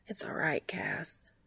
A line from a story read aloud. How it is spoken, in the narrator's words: Dean says softly